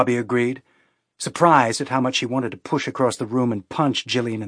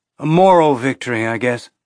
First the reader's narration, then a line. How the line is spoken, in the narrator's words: Bobby sighed